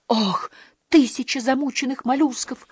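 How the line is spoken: Groaning. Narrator (Russian): простонал Иккинг

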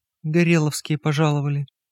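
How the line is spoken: Whispered. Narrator (Russian): прошептала Симонян

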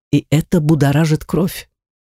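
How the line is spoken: Man whispering. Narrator (Russian): прошептал мужчина

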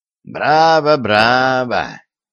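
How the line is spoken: Hoarse, approving. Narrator (Russian): одобрительно сказал сиплым голосом

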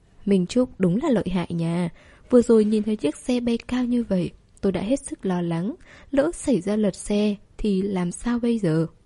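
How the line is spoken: Smiling praise. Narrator (Vietnamese): Tuân Tĩnh mỉm cười khen một câu

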